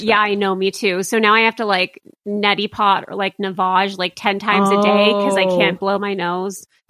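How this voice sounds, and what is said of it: Weird voice with vocal fry. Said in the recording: “that's why I sound weird... this vocal fry is like what people are most annoyed at... It sounds like sexy kind of... You sound young”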